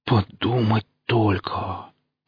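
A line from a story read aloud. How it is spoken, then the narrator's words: Bitter, surprised exhalation. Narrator (Russian): в горьком удивлении выдохнул проф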